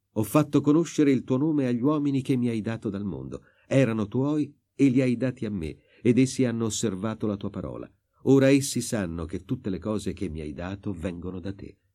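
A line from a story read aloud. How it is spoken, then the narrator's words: Exclaiming. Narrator (Italian): Nella sua preghiera al Padre, Gesù esclama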